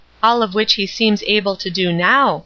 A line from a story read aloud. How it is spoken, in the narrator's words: Marion said